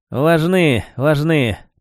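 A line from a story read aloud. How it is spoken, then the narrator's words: Grumbling mutter. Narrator (Russian): пробурчал Витька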